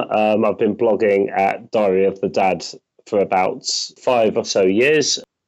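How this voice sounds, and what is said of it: Hoarse voice from a cold. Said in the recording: “I don't normally sound this hoarse. I've got a bit of a cold... I sound like Lucifer today”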